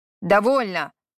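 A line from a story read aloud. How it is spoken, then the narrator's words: Rough shout. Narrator (Russian): Грубо прикрикнул Харад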